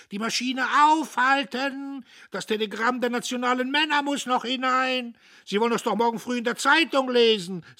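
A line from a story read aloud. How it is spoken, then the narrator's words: Shouting. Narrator (German): schrie er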